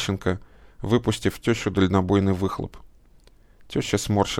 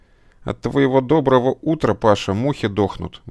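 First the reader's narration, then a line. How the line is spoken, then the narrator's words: Disgusted, through gritted teeth. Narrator (Russian): брезгливо процедила она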